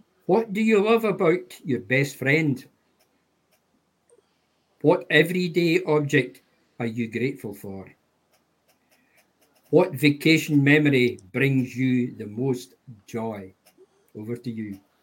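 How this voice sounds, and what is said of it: Dundee Scottish accent. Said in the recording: “his fantastic Dundee Scottish accent”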